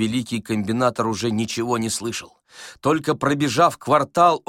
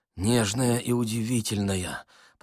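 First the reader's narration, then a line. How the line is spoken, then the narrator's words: Mumbled. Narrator (Russian): пробормотал он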